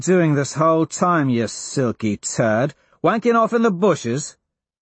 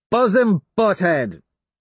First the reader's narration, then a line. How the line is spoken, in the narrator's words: I shout up